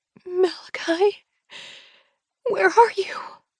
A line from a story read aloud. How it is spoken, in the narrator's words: She sobs, as if hyperventilating